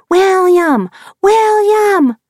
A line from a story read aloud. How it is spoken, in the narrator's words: A girl hollering